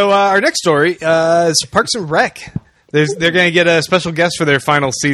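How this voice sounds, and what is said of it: Usual voice. Nothing is said of it.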